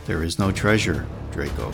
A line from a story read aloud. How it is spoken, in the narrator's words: said calmly as I could